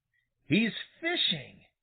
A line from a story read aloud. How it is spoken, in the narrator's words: exclaimed Billy Mink